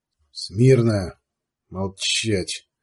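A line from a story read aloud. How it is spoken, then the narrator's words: Through gritted teeth. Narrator (Russian): сквозь зубы откликнулся Сварог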